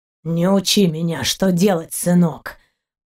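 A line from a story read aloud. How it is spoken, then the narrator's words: Deep bass voice. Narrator (Russian): пробасил пират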